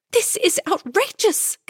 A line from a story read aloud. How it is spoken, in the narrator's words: Camilla cried